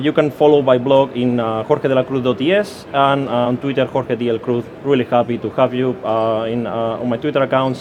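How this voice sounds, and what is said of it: Spanish accent. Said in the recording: “I'm Spanish, as you can hear by my accent,”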